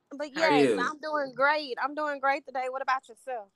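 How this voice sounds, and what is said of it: Southern US accent. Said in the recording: “You country... very country. I am a Southern girl... That accent.”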